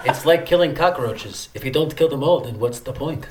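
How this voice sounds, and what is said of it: Put-on accent reciting a movie line. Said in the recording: “It's a good, good accent right there.”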